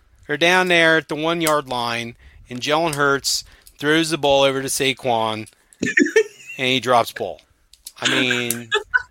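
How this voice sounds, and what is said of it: Delaware Valley Jersey accent. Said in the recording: “that Delco Valley Jersey accent”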